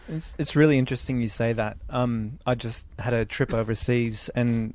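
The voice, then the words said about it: American-influenced accent. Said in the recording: “as you may be able to tell from my accent, I used to live in California... in America... I moved there from Australia”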